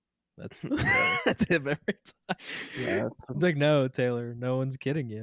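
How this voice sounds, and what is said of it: Usual voice. Nothing is said of it.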